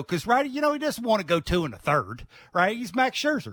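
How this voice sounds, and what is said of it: Southern US accent. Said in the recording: “I love that that, that southern accent you got going there ... Virginia.”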